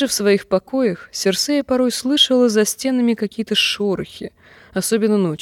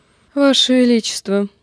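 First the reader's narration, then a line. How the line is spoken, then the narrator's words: Sleepy mumble. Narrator (Russian): сонно пробормотала Таэна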